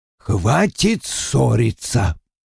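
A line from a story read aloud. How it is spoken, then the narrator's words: Muttered. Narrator (Russian): пробормотал Вульф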